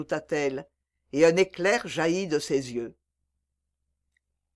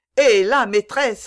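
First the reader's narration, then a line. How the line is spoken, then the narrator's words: Exclaimed. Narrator (French): s'écria Cudjoe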